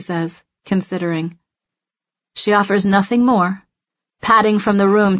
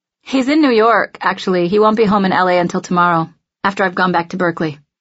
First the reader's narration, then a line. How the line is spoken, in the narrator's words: answer defensively